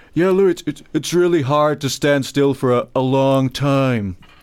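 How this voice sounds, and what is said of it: Imitates another person's voice. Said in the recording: “It's a good impression, mate.”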